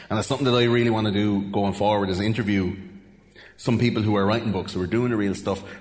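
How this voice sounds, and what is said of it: Irish Wexford accent. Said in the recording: “my Wexford accent”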